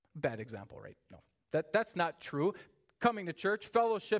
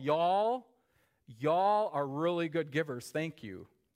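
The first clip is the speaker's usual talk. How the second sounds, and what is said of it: Put-on Southern drawl. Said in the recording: “let me pull out a little southern drawl”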